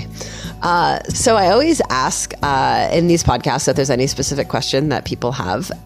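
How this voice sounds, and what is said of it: Deep hoarse sore-throat voice. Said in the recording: “I'm getting over a sore throat, so I sound a little bit like I'm trying to do a Barry White impersonation.”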